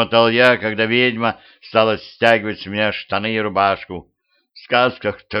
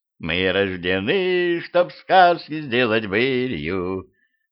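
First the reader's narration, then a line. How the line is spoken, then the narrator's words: Witch purring. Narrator (Russian): промурлыкала ведьма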